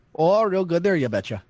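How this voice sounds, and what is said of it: Put-on North Dakota accent. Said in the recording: “I figured I had to do an accent from North Dakota”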